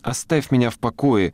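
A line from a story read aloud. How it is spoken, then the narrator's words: Irritated squeak, young girl. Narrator (Russian): раздраженно пискнула девочка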